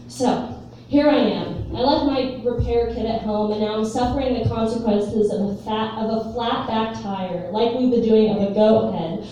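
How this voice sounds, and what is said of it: Put-on Southern US accent. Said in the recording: “There will be accents. I am not from the South, but there will be Southern accents.”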